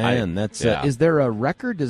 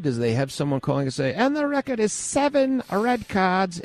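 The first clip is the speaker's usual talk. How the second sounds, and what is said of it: Put-on unidentified foreign-sounding accent. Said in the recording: “I don't know what accent that was, but it was not mine.”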